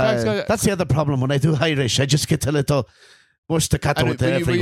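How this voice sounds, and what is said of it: Usual voice. Nothing is said of it.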